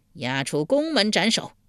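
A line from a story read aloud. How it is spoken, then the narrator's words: Angry. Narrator (Chinese): 晋惠公一脸怒色道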